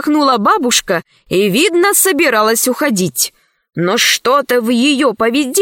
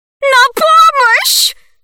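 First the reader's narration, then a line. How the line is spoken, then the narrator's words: Old woman shouting. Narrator (Russian): закричала бабуся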